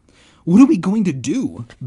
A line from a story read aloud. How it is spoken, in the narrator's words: Ben cried